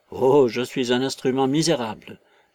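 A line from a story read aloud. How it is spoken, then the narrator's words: Groaning. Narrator (French): gémit Marvel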